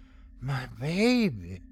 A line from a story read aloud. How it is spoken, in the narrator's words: she whispered